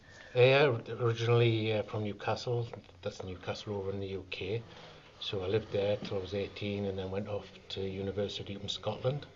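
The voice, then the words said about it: Northeast English accent. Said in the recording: “an accent from the northeast in England”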